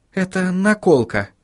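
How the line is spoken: Quiet explanation. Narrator (Russian): тихо пояснила Сахариса

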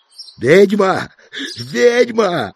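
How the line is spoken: Stubborn shout. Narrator (Russian): упрямо выкрикнул княжич

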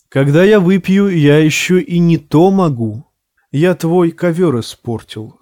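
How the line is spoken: Plain. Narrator (Russian): сказал он хозяину

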